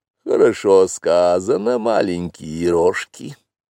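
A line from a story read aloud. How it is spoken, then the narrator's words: Purred. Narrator (Russian): промурлыкала Багира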